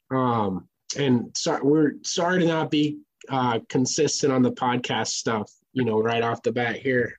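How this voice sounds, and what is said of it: Rough, sick-sounding voice. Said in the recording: “I got super sick ... I've been sicker than a dog all week ... my voice sounds like ass right now”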